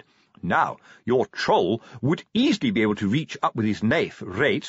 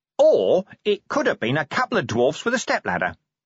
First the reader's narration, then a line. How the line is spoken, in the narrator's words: Nobby went on cheerfully